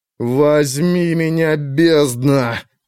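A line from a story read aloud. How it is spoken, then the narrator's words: Moaning. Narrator (Russian): простонал бог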